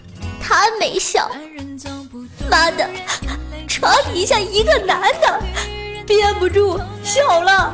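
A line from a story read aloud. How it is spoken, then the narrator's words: Crying. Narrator (Chinese): 子不语哭了，说道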